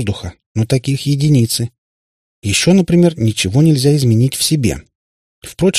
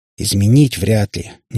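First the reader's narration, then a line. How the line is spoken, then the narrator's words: Reluctant grumble. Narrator (Russian): неохотно пробурчала ведьмочка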